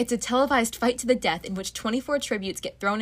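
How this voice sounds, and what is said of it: Usual voice. Nothing is said of it.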